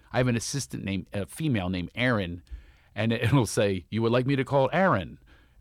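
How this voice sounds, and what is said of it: Philadelphia accent. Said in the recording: “I have a Philadelphia accent and Siri does not understand me”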